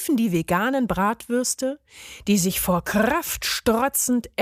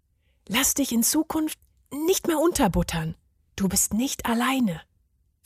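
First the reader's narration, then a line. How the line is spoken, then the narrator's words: Whispered. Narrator (German): flüsterte er ihm zu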